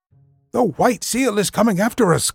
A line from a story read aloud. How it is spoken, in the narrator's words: cried Patalamon